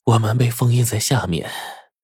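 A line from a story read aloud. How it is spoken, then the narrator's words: Sighing. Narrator (Chinese): 美女蛇叹了口气说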